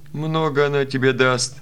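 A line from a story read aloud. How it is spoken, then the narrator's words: Laughing. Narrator (Russian): засмеялся Васо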